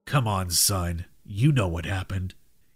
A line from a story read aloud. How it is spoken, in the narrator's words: replied coldly